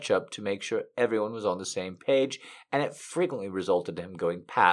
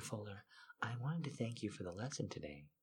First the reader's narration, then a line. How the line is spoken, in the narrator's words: she said warmly